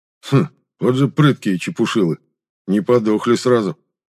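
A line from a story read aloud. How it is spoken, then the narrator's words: Respectful grunt. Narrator (Russian): уважительно хмыкнул Зема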